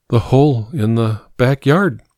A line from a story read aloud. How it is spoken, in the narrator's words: she breathed